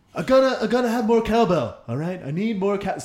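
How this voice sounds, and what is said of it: Imitates another person's voice, badly. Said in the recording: “give me a celebrity and I'll give you the impression... Christopher Walken... that sounded awful”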